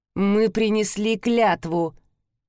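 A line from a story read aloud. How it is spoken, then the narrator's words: Hissed through teeth. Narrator (Russian): процедила сквозь зубы Стелла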